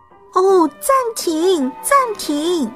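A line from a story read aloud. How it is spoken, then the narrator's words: Loud shout. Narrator (Chinese): 评审委员大叫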